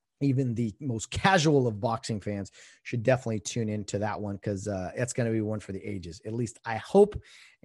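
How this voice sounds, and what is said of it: Hoarse, strained voice. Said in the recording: “losing my voice here a little bit”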